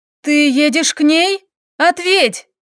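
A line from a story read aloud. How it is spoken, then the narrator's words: Shouted. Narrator (Russian): Выкрикнула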